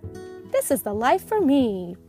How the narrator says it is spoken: purred Muff

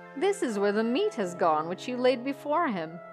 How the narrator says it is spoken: said Olaf with his loud laugh

